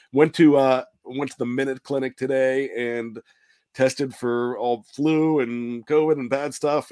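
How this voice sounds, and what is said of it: Sick, congested voice from a cold. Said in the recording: “you sound sick. Just have a cold ... I love the way my voice sounds when when I've got a cold”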